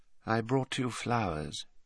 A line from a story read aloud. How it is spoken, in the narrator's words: he said quietly